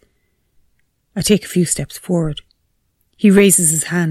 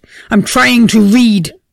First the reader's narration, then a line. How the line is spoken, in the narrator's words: he bellows